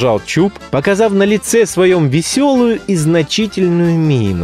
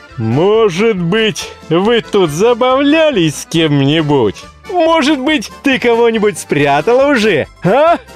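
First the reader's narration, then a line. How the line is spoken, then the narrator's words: Delighted triumphant laughter. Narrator (Russian): восхищенный таким своим замечанием, Чуб засмеялся, внутренне торжествуя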